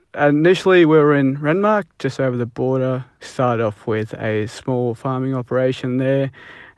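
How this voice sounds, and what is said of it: Thick Australian accent. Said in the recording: “your accent's arguably thicker than mine. You grew up in Australia”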